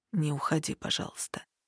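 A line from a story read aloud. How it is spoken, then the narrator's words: Very quiet plea. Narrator (Russian): очень тихо попросил он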